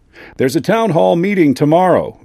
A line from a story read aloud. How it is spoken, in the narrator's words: Vic told me, leaning over the bar and raising his voice